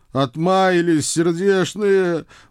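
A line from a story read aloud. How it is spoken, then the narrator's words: Emotional groan. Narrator (Russian): с чувством простонал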